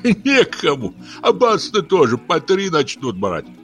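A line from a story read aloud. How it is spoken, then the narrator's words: Old man laughing. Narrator (Russian): засмеялся худенький старик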